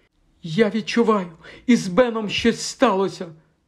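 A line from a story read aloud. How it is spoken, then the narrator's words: Trembling voice. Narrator (Ukrainian): проговорила міс Ангоріан тремтячим голосом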